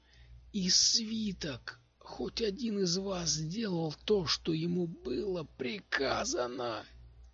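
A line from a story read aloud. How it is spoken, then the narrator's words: Hoarse croak. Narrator (Russian): Стиллер прохрипел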